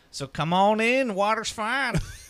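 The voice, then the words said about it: Put-on country accent. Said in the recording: “I don't know why I've just taken over a country accent.”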